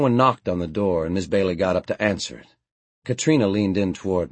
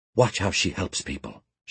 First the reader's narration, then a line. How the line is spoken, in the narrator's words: she whispered